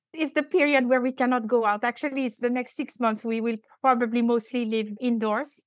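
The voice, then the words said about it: French accent. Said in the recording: “So I'm French. I still have quite an accent”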